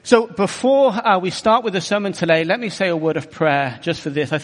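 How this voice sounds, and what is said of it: Bristol, southwest English accent. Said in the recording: “the accent, I come from Bristol in the southwest of England”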